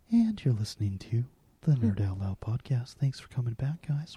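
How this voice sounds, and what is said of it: Public radio announcer voice. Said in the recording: “I'm trying my new NPR voice. ... Do you like that voice”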